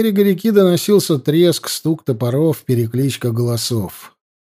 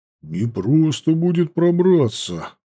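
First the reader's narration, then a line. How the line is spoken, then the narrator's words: Hidden mutter. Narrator (Russian): пробормотал притаившийся рядом Ауранг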